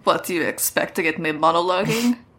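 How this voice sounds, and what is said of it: Russian-sounding, slurred character voice. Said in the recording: “I like that he's Russian now. ... He's got blood in his mouth. Shit. He's, like, not speaking clearly. ... that's what Russian accents kind of sound like. Having a mouth ... blood.”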